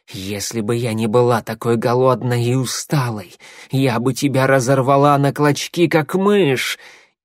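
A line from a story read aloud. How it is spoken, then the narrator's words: Hissing. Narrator (Russian): Щербатая зашипела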